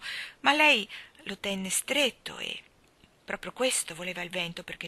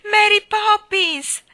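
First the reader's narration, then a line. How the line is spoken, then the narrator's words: Shouted together. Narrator (Italian): gridarono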